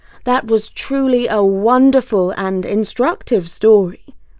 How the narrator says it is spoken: said the Sultan

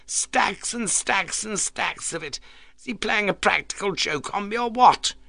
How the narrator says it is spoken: demanded hysterically

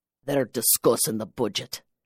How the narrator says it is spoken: he advised in a deep, husky brogue

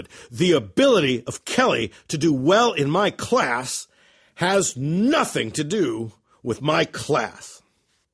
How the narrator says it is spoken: shouted

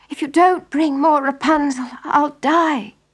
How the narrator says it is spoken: she begged her husband

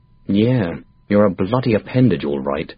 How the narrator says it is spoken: I said under my breath

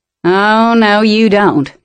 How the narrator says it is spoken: he growled

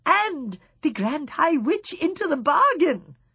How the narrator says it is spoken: she cried

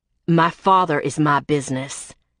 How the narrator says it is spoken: Viper said in a hard voice

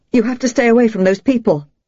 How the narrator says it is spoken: she blurted

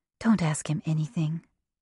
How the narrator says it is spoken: she whispered to David

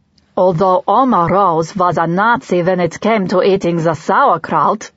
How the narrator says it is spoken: Webb said in a bad German accent

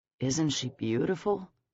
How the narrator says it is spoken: Trey murmured

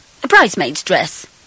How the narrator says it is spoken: I said haughtily

